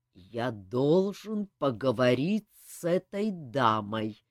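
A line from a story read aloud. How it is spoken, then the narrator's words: Slow, menacing. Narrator (Russian): медленно и угрожающе произнес он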